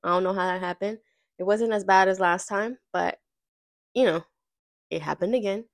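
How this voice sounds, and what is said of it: Nasal, congested voice. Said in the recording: “I sound a little nasally,”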